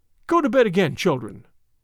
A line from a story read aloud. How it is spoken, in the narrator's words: said she sharply